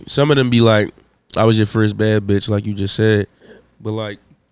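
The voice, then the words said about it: Sick-sounding voice. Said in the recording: “I'm sick, y'all. So excuse my voice.”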